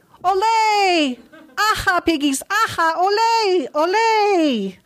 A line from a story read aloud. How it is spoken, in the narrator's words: We'd shout out